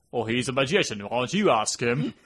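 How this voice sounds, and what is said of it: Poor impression of a British actor. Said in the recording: “my terrible Michael Caine impression”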